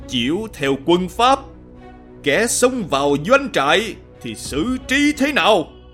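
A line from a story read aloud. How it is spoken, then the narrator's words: Stern question. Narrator (Vietnamese): Điền Nhân Thư lại hỏi quan pháp quân một cách nghiêm nghị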